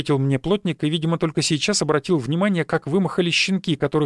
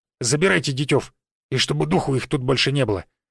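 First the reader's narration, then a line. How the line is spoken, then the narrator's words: Menacing. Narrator (Russian): грозно сказал он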